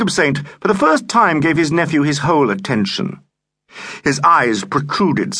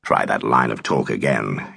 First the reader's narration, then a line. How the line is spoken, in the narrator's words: he said very quietly